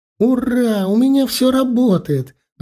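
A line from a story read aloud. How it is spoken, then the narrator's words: Joyful. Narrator (Russian): радостно захлопала в ладоши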